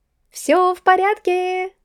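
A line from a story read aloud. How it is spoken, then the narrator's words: Cheerful shout. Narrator (Russian): белозубо улыбаясь, крикнула я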